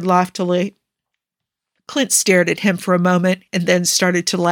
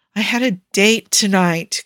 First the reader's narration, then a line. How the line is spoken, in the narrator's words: Clint said mournfully